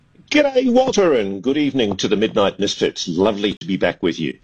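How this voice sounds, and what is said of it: Australian accent. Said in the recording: “Australian accent”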